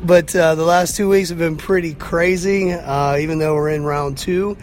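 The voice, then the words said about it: Slightly hoarse, worn voice. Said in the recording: “my voice is a little off this week ... I've definitely lost a little bit of my voice these last 2 weeks”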